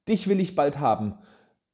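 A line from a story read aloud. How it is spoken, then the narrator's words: Called out. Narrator (German): rief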